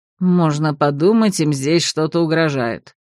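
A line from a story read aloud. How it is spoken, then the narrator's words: Displeased grumble. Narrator (Russian): недовольно пробурчал Марс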